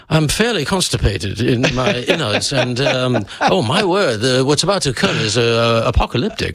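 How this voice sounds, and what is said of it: Put-on posh British accent. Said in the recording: “British accent by far. You can say anything in a British ... you sound like you're in the House of Lords.”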